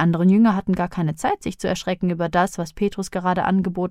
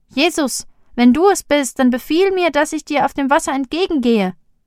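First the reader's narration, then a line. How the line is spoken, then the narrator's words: Called out. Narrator (German): Petrus rief ihm zu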